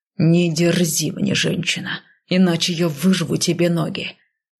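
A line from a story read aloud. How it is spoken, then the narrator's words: Growled. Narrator (Russian): рыкнул он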